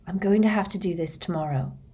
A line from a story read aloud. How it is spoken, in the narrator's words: he muttered